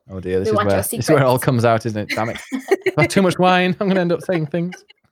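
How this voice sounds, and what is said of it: Yorkshire English accent. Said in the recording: “you do sound Yorkshire. Like you've got a York accent.”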